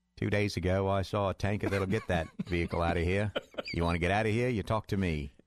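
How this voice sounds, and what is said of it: Mad Max impersonation. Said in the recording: “That's my Mad Max impersonation.”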